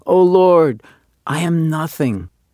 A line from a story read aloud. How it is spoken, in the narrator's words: the janitor of the synagogue, deeply moved himself, was heard to exclaim